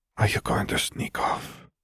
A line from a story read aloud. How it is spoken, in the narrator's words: Fleur whispered